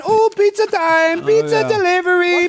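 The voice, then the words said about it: Put-on Italian accent. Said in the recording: “I like your Italian accent ... It's not good.”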